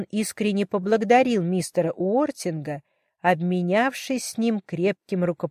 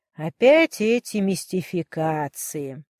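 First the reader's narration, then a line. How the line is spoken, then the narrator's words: Grumbling to himself. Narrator (Russian): ворчал он про себя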